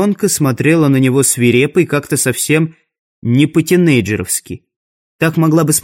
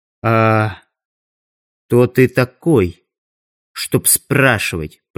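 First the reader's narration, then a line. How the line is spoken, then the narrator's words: Quietly through teeth. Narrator (Russian): процедила она тихо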